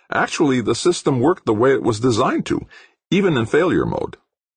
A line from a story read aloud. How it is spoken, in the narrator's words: Almost cheerfully, Zacharias said